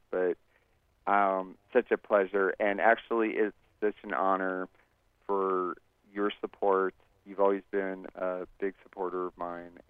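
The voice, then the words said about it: Exhausted, tired-sounding voice. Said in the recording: “As you can probably hear from my voice, I am exhausted from being in D.C. for almost 3 days.”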